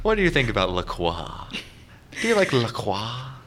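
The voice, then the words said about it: Pretentious French accent. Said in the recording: “He's just being pretentious in a French accent.”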